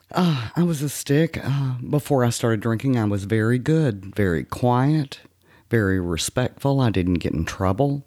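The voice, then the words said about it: Texas accent. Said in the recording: “from your accent, it sounds like you grew up in Texas”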